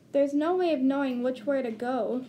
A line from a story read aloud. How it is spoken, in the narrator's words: Clank moaned